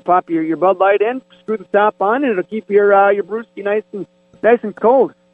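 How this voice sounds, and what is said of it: Canadian-sounding accent. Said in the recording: “That sounded very Canadian when you said brewski... the way you said it... It came out very north of the border.”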